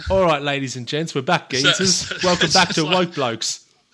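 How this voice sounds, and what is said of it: Put-on British accent. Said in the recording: “Did you develop a British accent in that time it took to rectify those? ... Am I speaking British? ... You did.”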